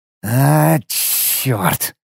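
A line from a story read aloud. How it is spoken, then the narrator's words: Sharp exhale. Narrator (Russian): резко выдохнул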